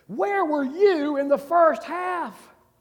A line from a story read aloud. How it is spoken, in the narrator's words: the coach screamed at the centipede